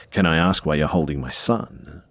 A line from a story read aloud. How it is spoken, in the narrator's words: my mum said in a deadly serious tone